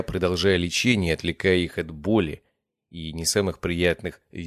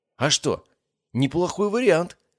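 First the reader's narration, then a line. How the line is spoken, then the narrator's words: Exclaiming. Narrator (Russian): воскликнул парень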